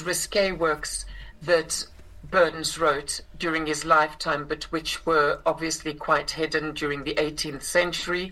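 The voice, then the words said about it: South African accent. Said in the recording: “I grew up in South Africa, which is where I inherited this accent”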